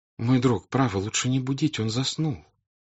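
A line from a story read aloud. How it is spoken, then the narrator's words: Pleading voice. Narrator (Russian): умоляющим голосом сказала княжна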